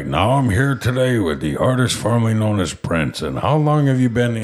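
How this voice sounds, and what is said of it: Deep-voiced impression of another person. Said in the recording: “I don't know why I'm making him sound like John Goodman ... I really only have like two deep voice impressions”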